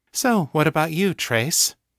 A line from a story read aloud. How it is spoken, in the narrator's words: asked coolly